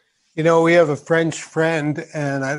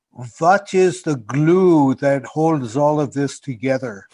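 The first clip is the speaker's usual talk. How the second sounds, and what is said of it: Weak French accent, sounds German. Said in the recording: “I don't know if I can do a proper French accent... It sounds a little more German to me... I'm not really doing the French thing.”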